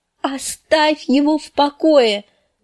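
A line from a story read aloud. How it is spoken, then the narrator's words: Screaming. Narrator (Russian): завопила Санса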